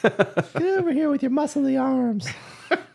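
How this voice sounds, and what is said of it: Old pervert character voice. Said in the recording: “I do a pretty good accent or a pretty good voice for the ... old, for the old pervert.”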